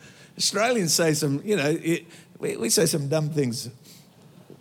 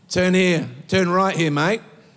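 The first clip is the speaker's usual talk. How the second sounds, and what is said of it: Australian-accented navigation voice. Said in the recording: “I want to create an Australian Google Maps.”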